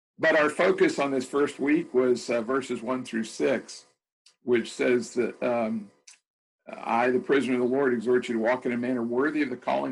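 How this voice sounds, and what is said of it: Scratchy, hoarse voice. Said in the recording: “My voice is scratching.”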